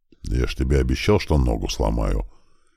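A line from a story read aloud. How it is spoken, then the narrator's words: Muttered under breath. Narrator (Russian): буркнул себе под нос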